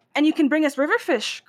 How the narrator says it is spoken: cried a fisherman

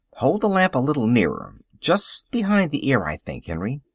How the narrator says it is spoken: said the farmer firmly

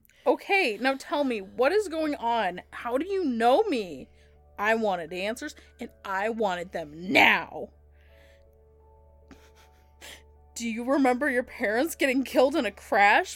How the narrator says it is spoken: Mikey asked

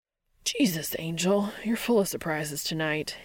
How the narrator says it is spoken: he hisses

